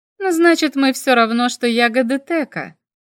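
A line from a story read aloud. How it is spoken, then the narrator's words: Laughing. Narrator (Russian): засмеялась я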